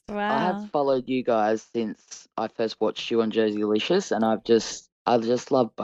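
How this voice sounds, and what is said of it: Australian accent. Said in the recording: “Australian ... It's such a beautiful accent ... I love your accent so much. It's the best.”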